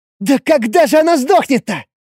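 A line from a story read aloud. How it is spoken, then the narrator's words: Exasperated exclamation. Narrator (Russian): В сердцах воскликнула тень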